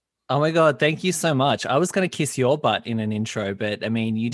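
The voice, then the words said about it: Australian accent. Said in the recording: “I'm hearing an accent... Yes, Australian, Aussie.”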